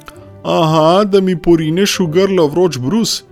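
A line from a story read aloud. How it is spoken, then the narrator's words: Calling back. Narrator (Slovenian): je oni zaklical nazaj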